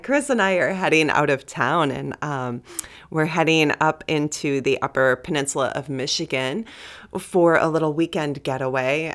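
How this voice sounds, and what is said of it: Funny, just-woken-up voice. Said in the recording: “I haven't really spoken much yet. My voice sounds funny. It's just waking up.”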